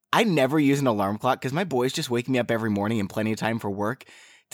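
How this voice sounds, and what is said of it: Congested, sick-sounding voice. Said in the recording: “So I'm dealing with a cold, if you all can't tell. My voice is a lot different today.”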